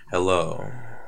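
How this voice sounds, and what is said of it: Relaxed, sexy voice. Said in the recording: “That's your very relaxed voice. ... This is my relaxed, sexy voice”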